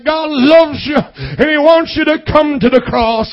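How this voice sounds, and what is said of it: Southern accent preacher impression. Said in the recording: “with that southern accent”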